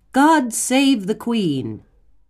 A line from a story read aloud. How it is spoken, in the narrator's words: the crowd shouted